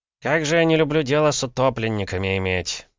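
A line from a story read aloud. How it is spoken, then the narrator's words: Grumbling investigator. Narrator (Russian): проворчал следователь Дубровской городской управы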